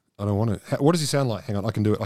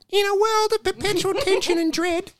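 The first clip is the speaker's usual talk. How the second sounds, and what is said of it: Imitates another person's voice. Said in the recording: “I can do his voice. ... this is actually in his voice.”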